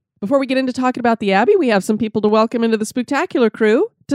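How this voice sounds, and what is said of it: Stuffy, congested voice from cold. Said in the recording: “You probably can tell by the sound of my voice that I have been hit by the evil demon known as summer cold ... my voice is going to be a little bit off and I sound a little stuffy ... my stuffiness”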